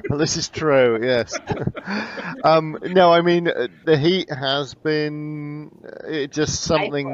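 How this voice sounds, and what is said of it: Southwest English accent. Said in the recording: “obviously I'm from England originally ... I'm from the southwest. Okay. So Bristol, Bath area.”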